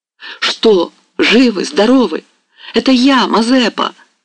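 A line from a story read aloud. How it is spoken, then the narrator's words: Shouting. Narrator (Russian): закричал он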